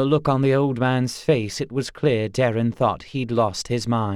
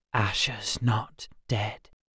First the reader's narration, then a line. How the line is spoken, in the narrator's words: Gar whispered